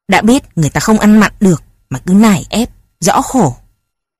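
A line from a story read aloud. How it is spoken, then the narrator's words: Irritated snap. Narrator (Vietnamese): Ông bố gắt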